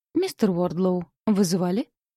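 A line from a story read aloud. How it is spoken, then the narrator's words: Calm. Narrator (Russian): спокойно произнесла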